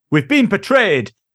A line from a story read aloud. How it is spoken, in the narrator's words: shouts the leader